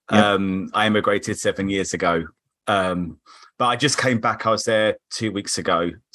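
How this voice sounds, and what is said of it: British Cockney accent. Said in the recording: “a bit of a slight leftover British accent ... it's definitely not leftover. I'm from Croydon ... it's got a little bit strong ... the Cockney twinge”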